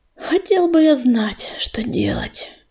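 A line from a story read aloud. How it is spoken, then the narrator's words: Sighing. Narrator (Russian): вздохнул ураган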